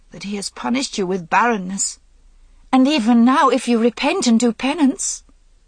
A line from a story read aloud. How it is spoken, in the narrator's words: Guinevere faltered